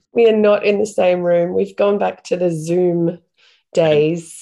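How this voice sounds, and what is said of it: Congested, sick-sounding voice. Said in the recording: “you can probably hear from my voice and the way I sound at the moment. I have been struck down with the plague ... it feels like a head cold”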